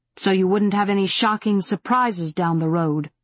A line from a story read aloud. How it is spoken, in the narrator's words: Angel said bitterly, her throat tight